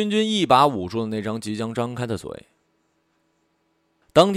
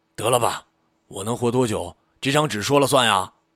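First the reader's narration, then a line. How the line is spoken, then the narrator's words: Annoyed. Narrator (Chinese): 医生一脸恼怒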